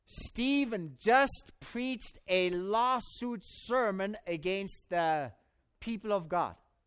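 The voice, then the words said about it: Speaks with a noticeable accent. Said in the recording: “because of my accent”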